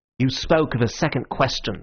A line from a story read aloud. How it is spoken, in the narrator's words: snapped Gregory